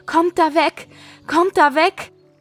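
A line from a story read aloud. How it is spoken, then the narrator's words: Shouting while running. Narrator (German): Sie rief und schrie im Laufen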